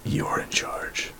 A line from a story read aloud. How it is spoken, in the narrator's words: Soth kind of whispers in his ear